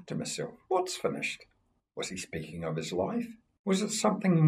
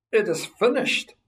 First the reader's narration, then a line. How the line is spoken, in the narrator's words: He shouted